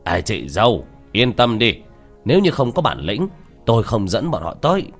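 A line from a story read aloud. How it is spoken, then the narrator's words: Laughing loudly. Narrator (Vietnamese): Tô Bàn Tử cười lớn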